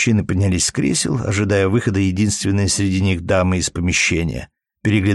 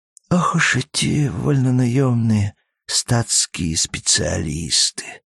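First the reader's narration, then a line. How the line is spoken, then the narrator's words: Barely audible mutter. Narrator (Russian): пробормотал едва слышно князь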